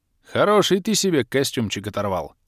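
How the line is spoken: Snort. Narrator (Russian): фыркнул я

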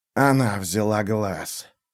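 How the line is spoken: Wheezed, lying down. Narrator (Russian): прохрипела лежащая в траве фигура

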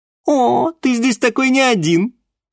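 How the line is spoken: Distant laughter. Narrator (Russian): Где-то в клубах тумана рассмеялась Алиса

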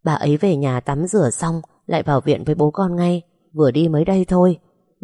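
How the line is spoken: Resigned sigh. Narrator (Vietnamese): bác Năm cũng đành thở dài trả lời

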